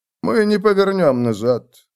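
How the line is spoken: Calm. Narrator (Russian): спокойно произнес он

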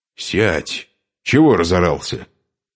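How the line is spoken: Angry snap. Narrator (Russian): сердито бросил гололоб

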